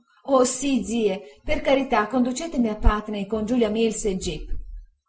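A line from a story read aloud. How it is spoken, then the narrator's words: Tearful exclamation. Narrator (Italian): Dora, piangendo, esclamò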